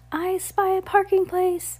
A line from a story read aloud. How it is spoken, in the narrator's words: Henry cried